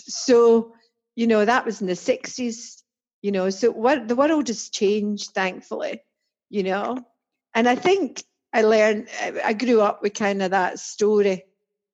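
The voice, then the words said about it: Strong Scottish accent. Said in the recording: “I'm very proud of being Scottish ... a wee Scots accent ... you can probably hear, I still have a strong accent. And I think it's stronger”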